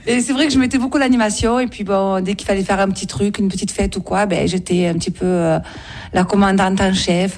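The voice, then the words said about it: Warm sing-song Marseille French accent. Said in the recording (French): “votre accent apporte un petit peu de chaleur ... j'ai pris un peu l'accent marseillais, mélangé à l'accent d'Aubagne et l'accent du Var. Donc, ça fait un petit mélange qui chante.”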